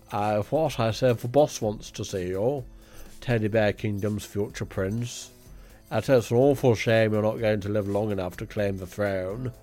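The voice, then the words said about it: Posh English voice, not Cockney. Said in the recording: “That was supposed to be like a Cockney thug voice, not your own posh voice”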